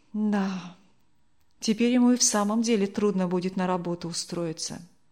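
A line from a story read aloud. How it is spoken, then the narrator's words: Sighing. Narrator (Russian): вздохнула Людмила Михайловна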